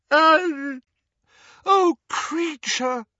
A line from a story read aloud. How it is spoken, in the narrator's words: wailed Hermione, who was crying